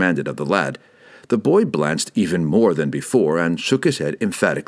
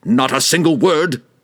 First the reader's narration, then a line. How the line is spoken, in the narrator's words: Malkor yelled